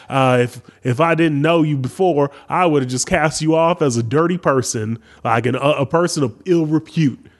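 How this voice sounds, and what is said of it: Put-on Southern accent. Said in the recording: “He doesn't even have a southern accent. I don't know why I did that.”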